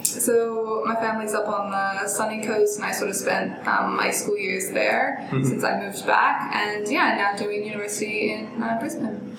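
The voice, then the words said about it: Mixed Australian-American accent. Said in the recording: “I've got a bit of an accent ... I've kind of picked up more Australian, and it's a bit of a mix now. I get like Canadian a lot, New Zealand.”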